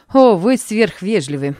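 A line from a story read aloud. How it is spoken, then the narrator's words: Laughing. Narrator (Russian): засмеялся он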